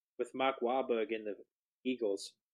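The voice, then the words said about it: Weak put-on Boston accent. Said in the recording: “did you just try to do a Boston accent? ... It wasn't a good one. I can do better.”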